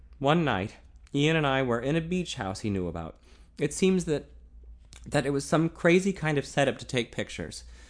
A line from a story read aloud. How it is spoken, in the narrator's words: stammered